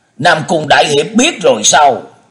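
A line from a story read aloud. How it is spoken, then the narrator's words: Astonished hurried cry. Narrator (Vietnamese): Mỹ Đông Lưu ngỡ người kinh ngạc rồi vội la lên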